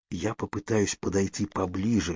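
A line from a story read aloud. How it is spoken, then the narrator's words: Whisper. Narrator (Russian): шепнул я Кейт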